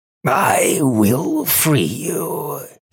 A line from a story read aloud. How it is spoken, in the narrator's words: he said, his voice rasping as though he had a throat full of iron filings